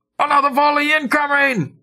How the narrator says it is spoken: yell

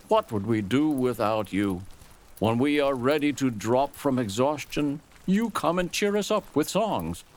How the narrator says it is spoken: the dark one called out

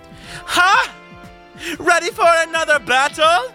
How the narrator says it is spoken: A voice cried out

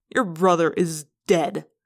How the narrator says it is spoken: Eslin snapped

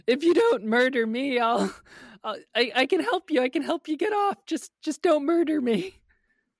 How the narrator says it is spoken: The soldier just starts wailing

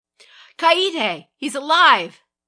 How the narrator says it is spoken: shouted, a skeptical triumph in his voice

